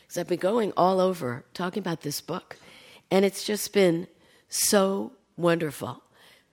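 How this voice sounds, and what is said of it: Strained, hoarse laryngitis voice. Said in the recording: “My voice is a little bizarre. I have a little laryngitis.”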